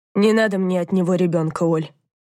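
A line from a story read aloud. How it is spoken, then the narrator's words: Tired agreement. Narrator (Russian): устало согласилась Данка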